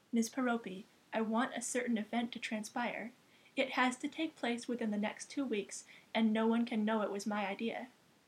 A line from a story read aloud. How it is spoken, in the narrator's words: said, in an appropriately respectful tone of voice